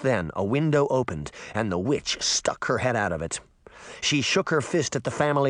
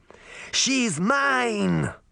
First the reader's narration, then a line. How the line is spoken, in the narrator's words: Baba Yaga shouted from a window